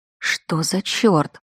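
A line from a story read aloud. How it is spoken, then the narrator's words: Muttering. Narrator (Russian): пробормотала я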